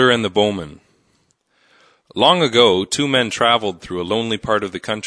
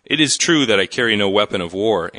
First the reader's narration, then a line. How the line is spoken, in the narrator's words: answered the youth